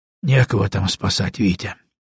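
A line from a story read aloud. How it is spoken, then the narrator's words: Quiet. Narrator (Russian): тихо сказал он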